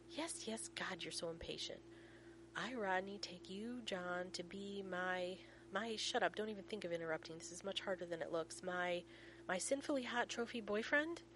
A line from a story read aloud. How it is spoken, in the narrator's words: John snorts softly